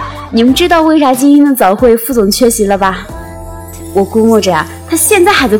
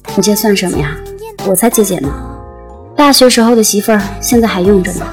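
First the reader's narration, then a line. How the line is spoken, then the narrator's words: Calm, flat. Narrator (Chinese): 副总不动声色，淡淡说了一句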